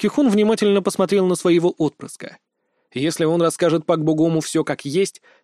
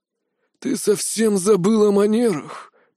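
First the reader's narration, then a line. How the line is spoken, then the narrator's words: Hissed. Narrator (Russian): прошипел Пак Кихун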